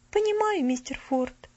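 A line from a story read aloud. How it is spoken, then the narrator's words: Gentle, affectionate. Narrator (Russian): ласково проговорила она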